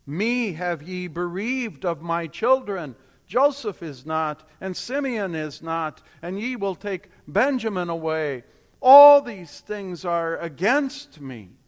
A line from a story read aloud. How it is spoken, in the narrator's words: Jacob cried out